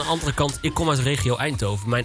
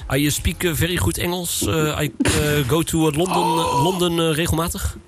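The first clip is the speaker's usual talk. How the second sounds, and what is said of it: Exaggerated Dutch-accented English. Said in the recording (Dutch): “Mijn Engels moet vreselijk zijn met een Nederlands accent erdoorheen”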